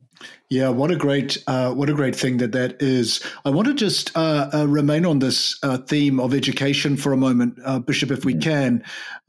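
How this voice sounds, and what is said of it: Australian or New Zealand accent. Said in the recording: “my accent betrays my own connection to Australia and New Zealand”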